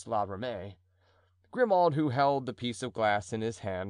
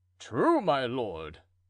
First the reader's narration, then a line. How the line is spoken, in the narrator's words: exclaimed La Ramee